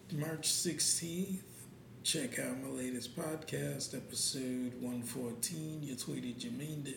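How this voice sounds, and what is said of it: Whispering. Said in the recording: “I am whispering. Very much so whispering.”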